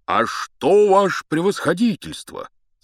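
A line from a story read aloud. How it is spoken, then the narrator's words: Joyful. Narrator (Russian): сказал он радостно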